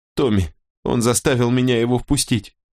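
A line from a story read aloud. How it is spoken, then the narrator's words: Whimpering girl. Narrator (Russian): захныкала девица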